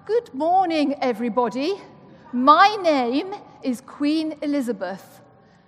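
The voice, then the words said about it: Imitated royal British accent. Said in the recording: “I'll do my Queen accent now.”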